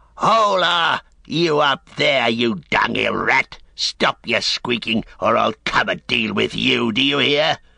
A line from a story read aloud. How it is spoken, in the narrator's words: a snarling orc voice rang out